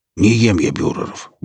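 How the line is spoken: Grumbled mutter. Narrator (Russian): буркнул Велес

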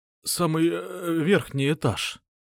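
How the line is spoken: Trembling voice. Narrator (Russian): сказал бандит дрогнувшим голосом

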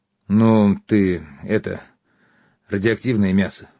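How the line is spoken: Grumbling. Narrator (Russian): проворчал я

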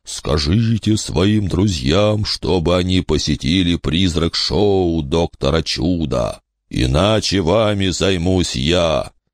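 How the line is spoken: Dreadful sepulchral voice. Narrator (Russian): произносит ужасным могильным голосом

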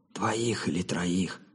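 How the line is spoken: Whispered reply. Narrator (Russian): также шепотом ответил Робин

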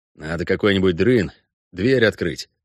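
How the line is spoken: Plain. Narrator (Russian): сказал Геральт

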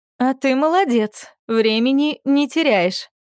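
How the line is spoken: Forced, strained. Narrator (Russian): выдавила она

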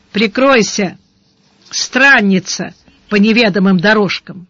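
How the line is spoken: Rough bark. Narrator (Russian): Сварог грубо рявкнул

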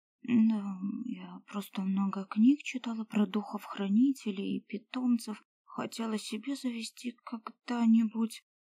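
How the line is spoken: Quiet reply. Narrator (Russian): тихо ответила она

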